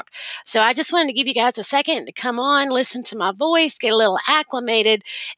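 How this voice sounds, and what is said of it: Fast-talking Southern US accent. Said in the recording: “I am the fastest speaking Southern accented woman that you have ever heard. The faster I talk, the more Southern I sound”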